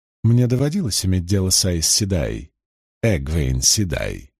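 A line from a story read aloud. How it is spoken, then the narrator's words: Dry reply. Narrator (Russian): сухо отозвалась первенствующая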